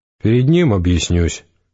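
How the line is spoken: Dry. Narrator (Russian): сухо сказал Гессер

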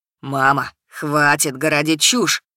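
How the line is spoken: Barking snap. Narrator (Russian): Рявкнул Кирилл

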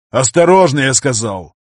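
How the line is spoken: Barked sharply. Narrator (Russian): Рявкнул Виктор, услышав слабый стон

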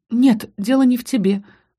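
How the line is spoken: Sighing. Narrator (Russian): вздохнула я

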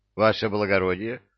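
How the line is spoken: Indignant outburst. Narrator (Russian): вне себя от негодования

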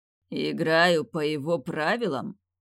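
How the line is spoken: Bestial growl. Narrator (Russian): От его рычания, от того, как изменился его голос, вобрав в себя всю звериную природу

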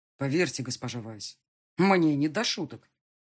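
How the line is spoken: Sharp. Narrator (Russian): резко сказал фон Морунген

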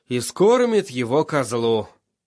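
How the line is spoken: Weary. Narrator (Russian): устало сказал Тирион

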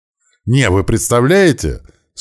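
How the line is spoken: Speaking through laughter. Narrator (Russian): сквозь смех пытался сказать он

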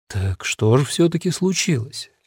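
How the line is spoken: Gentle question. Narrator (Russian): мягко спросил Фаулер

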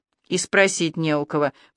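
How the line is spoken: Grumbled reply. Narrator (Russian): пробурчала в ответ Танька

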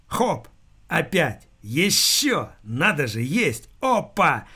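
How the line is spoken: Loud repeated exclamations. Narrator (Russian): громко приговаривал он

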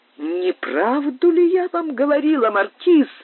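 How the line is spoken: Exclaimed woman. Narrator (Russian): воскликнула леди Кэмпбелл

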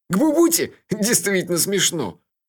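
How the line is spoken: Nervous giggle. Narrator (Russian): Мелифара нервно хихикнул

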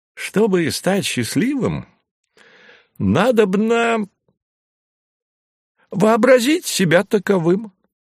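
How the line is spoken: Joyful announcement. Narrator (Russian): радостно сообщил Василий Осипович

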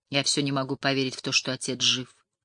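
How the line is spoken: Mutter. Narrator (Russian): пробормотала Шарлин

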